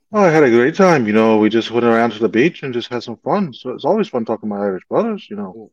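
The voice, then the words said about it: Weak put-on Irish brogue. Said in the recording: “A little bit of a brogue on you, huh? I give you A for effort. Don't know if I can give you A for execution”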